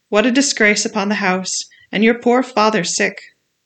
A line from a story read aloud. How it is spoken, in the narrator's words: cried